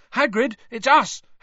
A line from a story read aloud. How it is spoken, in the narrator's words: Harry shouted